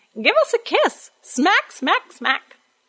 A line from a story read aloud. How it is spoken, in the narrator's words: cackling away, saying